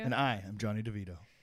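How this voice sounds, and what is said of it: Sultry, strongly inflected voice. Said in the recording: “hear the inflection in my voice ... That's a strong vocal tone ... very sultry”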